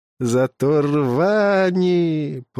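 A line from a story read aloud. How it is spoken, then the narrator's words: Disdainful drawl. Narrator (Russian): протянул молодой и брезгливо скривился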